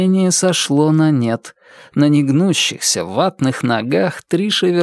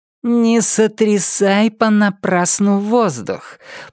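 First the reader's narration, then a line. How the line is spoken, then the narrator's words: Icy, through gritted teeth. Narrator (Russian): процедил ледяной голос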